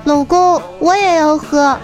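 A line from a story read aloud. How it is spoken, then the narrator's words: Startled call. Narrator (Chinese): 这女儿愣了一下，又喊道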